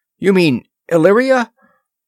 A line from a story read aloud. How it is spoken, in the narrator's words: Horta chuckled